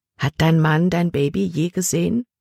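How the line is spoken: Plain. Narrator (German): fragte sie

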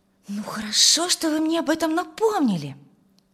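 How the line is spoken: Exclaiming. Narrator (Russian): воскликнула Тамара

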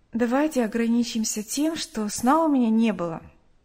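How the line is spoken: Tired reply. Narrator (Russian): устало ответила Нэнси

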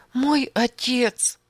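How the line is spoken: Sobbing speech. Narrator (Russian): всхлипывала она

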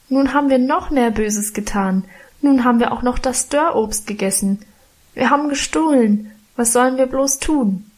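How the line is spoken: Wailing lament. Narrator (German): jammerte ich

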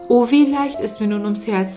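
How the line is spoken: Plain. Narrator (German): sagte der Junge

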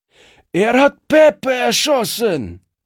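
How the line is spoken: Shouting man. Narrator (German): schrie einer der Strolche

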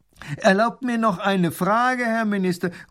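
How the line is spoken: Calling out from crowd. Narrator (German): ruft ein Mann aus der Menge

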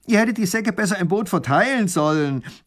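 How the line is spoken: Called out. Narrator (German): ruft der Räuber

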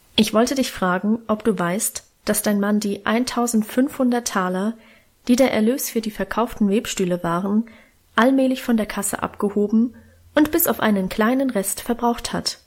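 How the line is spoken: Plain. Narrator (German): sagte Großvater

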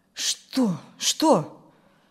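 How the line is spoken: Frightened mumbling. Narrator (Russian): испуганно забормотал тот

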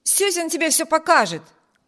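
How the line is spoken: Shouted. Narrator (Russian): крикнул Виберт

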